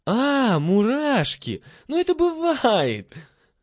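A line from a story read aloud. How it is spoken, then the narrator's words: Laughing girls. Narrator (Russian): засмеялись девочки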